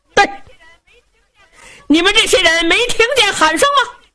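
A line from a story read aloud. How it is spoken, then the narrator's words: Loud shouting. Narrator (Chinese): 宇文成都在马上高声喊嚷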